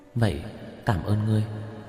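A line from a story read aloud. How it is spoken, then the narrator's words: Soft, smiling. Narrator (Vietnamese): Uyển Nhi khẽ mỉm cười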